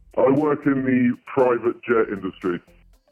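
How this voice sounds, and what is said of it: Electronically lowered, disguised voice. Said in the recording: “you are in a voice changer right now ... this isn't my normal voice ... quite a few octaves lower ... Not that much lower, no, but just enough to disguise your voice”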